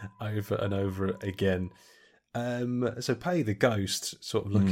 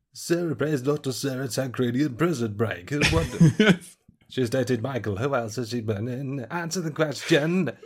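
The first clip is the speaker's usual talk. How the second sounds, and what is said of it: Imitates another person's voice, shouting. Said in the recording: “That's my best John Pancreas impression ... You just shout answer the question at people.”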